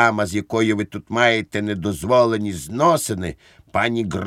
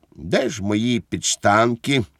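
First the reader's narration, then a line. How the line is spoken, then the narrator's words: Calm question. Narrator (Ukrainian): запитав спокійно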